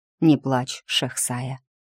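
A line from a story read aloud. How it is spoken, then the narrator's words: Tender. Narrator (Russian): ласково сказал он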